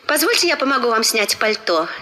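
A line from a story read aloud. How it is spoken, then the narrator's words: Plain. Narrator (Russian): сказала Розмери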